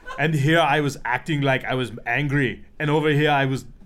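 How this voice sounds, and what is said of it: Imitates another person's voice. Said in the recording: “Good impression, actually.”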